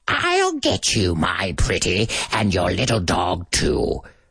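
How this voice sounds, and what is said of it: Wicked Witch character voice. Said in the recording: “from The Wizard of Oz ... if you do this voice ... so you're using the same voice when you go, ho, ho, ho, but it's not the same tone, but it's the same air”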